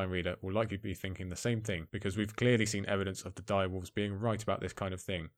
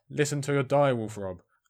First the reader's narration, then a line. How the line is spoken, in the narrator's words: our yells will be something along the lines of